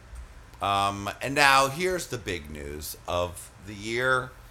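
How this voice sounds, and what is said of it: Usual voice. Nothing is said of it.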